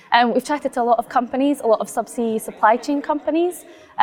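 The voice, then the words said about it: Slightly hoarse, strained voice. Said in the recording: “as you can hear, I'm kind of losing my voice slightly from all of the conversations”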